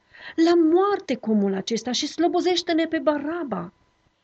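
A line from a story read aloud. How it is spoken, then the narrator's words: Crowd shouting in unison. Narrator (Romanian): Ei au strigat cu toții într-un glas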